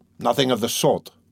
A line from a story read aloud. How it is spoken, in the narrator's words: Raskolnikov insisted irritably